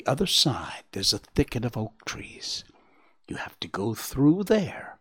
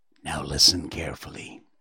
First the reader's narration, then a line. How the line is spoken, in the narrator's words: the owlet whispered